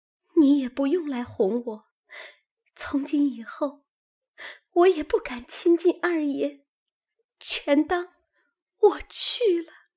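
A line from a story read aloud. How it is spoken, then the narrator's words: Crying. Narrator (Chinese): 因又撑不住，便哭道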